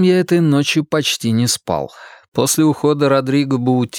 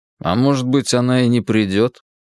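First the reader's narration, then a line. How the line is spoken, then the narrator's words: Sullen muttering. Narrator (Russian): угрюмо пробурчал я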